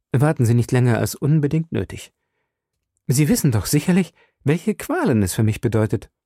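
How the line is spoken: Forced calm. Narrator (German): sagte so ruhig, als ich vermochte

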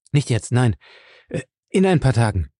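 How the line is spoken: Hasty. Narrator (German): sagte er hastig

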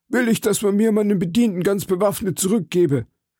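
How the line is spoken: Called out. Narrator (German): rief er

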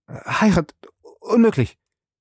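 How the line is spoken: Stuttered. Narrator (German): stotterte Passepartout

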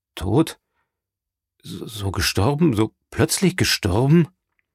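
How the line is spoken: Stammering. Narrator (German): stammelte

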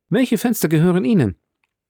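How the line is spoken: Asked in forced natural tone. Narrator (German): fragte er den Grafen mit dem natürlichsten Ton, den er anzunehmen vermochte

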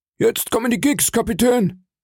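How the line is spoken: Called out. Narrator (German): rief ich

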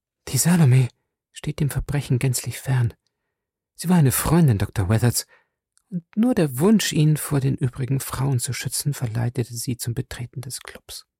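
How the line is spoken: Almost whispered reply. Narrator (German): gab die Stieftochter des Ermordeten fast flüsternd zurück

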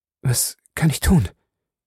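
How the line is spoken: Hoarse question. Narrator (German): fragte Arthur heiser

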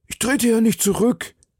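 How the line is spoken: Citizen calling to summon courage. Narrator (German): rief der Bürger, um sich Mut zu erwecken

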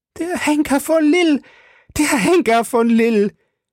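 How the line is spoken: Terrified shriek. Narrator (German): kreischte Milady, von einem wahnsinnigen Schrecken erfasst

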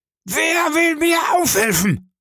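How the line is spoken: Roared. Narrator (German): brüllte

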